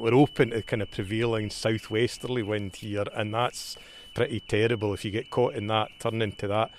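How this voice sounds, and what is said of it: Scottish accent. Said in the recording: “your accent is unmistakably Scottish”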